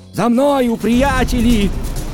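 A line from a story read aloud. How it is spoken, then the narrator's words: Shouting. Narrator (Russian): крикнул Мэри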